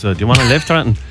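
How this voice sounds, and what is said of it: Put-on Dublin accent. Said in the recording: “Giving them a Dublin accent there.”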